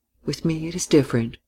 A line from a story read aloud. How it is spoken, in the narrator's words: she said quietly